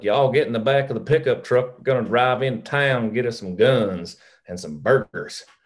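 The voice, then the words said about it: Put-on country Texas accent. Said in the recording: “give us your best Texas accent ... That's good.”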